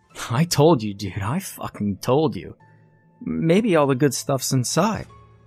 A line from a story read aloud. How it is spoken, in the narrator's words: said Alyssa